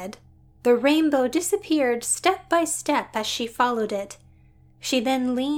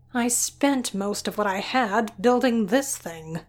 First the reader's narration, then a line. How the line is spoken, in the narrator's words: she grumbled